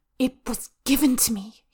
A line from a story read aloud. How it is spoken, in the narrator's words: he hisses